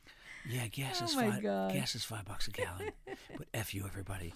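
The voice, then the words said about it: Imitates another person's voice. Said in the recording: “my Biden impression”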